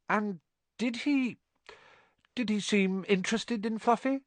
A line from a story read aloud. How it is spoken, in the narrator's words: Harry asked, trying to keep his voice calm